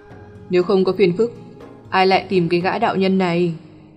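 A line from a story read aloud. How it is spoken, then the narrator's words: Smiling. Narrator (Vietnamese): Nghiêm Cửu mỉm cười nói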